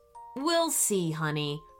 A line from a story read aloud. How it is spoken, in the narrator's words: her mom said